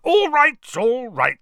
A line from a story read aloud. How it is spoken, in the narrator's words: said Uncle Vernon loudly